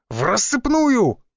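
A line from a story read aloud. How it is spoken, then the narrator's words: Barked shout. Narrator (Russian): гаркнул я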